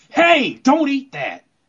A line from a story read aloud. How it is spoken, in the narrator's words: like a dude like Sergeant Slaughter yelling at kids